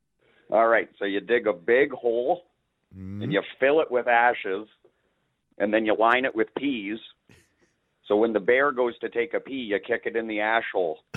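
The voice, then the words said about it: American-sounding accent. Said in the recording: “You did sound American ... you did sound like you had an accent”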